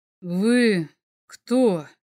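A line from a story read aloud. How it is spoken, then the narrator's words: Monster's breathy exhale. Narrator (Russian): Выдохнуло чудовище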